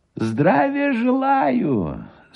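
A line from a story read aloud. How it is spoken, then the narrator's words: Thin high voice. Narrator (Russian): сказал Гусев тонким и высоким голосом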